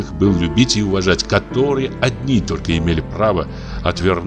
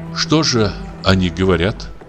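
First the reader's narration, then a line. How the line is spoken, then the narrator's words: Plain. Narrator (Russian): спросила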